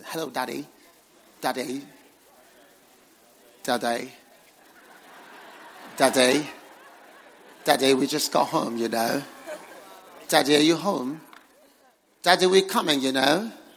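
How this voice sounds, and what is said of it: Children's voice with British accent. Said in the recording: “they'll be speaking to me nice British accent.”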